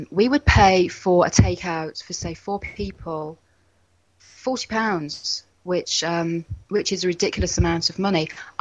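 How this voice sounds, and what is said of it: English accent. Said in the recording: “we're English, as I'm sure you can tell from my voice.”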